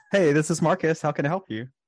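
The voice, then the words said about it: Customer service voice. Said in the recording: “do your customer service voice ... That is different.”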